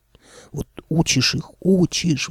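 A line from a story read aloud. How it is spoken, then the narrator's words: Old man sighing. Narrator (Russian): вздохнул дед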